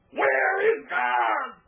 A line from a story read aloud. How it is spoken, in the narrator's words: The boy screamed